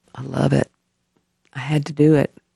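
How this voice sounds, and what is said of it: Choked-up, emotional voice. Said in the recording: “Sorry, I got choked up. ... This is the first time I've got choked up”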